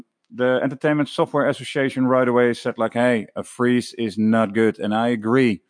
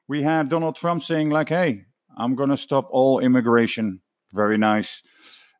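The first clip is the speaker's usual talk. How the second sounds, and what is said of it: Sarcastic tone. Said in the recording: “That was sarcastic, of course.”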